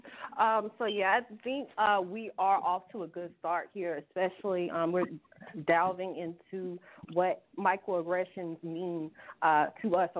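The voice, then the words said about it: Slight Southern US twang. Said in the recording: “my little accent. I got a little southern accent, a little southern twang”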